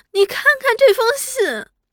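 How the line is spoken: Crying. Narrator (Chinese): 那七太哭着道

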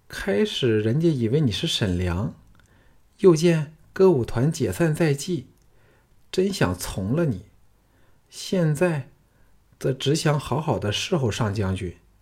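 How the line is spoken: Coquettish, smiling. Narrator (Chinese): 杏月媚笑说

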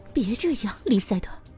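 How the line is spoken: Gloomy low mutter. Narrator (Chinese): 他小声嘟囔着，声调阴沉

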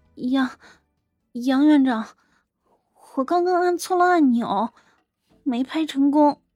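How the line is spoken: Glum, close to tears. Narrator (Chinese): 那护士哭丧着脸说道

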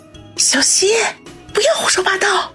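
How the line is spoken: Whispered. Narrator (Chinese): 于雨溪小声的说道

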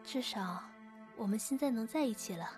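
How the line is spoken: Soft, comforting. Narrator (Chinese): 李瑞轻声安慰道

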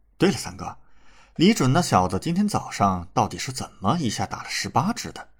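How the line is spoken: Cold. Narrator (Chinese): 李乾可是冷冷说道

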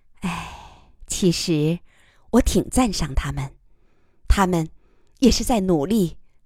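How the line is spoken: Soft sigh. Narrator (Chinese): 余乐水轻叹道

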